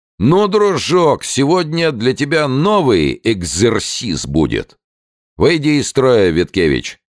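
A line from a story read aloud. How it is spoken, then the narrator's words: Loud, cheerful. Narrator (Russian): улыбнулся своей особенной веселой улыбочкой и сказал громко, так, чтобы услыхала и Анна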